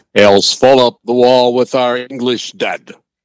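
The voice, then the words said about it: Muffled put-on accent, mumbled. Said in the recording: “I said that in my best... I'm not really sure what accent it was. It was more like you had a mouthful of mashed potatoes than accent.”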